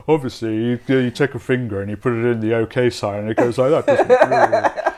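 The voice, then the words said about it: Put-on Gammon caricature voice. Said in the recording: “I'm doing a Gammon voice”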